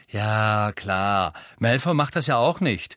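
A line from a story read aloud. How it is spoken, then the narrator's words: Sarcastic reply. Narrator (German): erwiderte Ron sarkastisch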